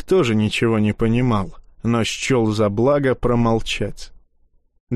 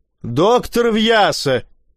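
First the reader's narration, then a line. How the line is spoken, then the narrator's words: Despairing howl. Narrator (Russian): в отчаянии взвыл председатель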